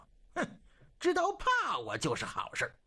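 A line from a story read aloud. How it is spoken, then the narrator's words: Amused inner voice. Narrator (Chinese): 肃顺 不由暗自好笑，心说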